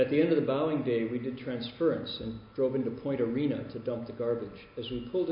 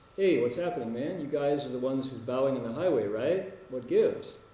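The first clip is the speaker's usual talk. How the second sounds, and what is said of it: Mocking tone. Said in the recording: “in a mocking voice”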